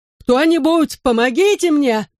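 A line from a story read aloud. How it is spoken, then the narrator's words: Desperate muffled screams. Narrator (Russian): Крики о помощи, ее вопли едва ли были слышны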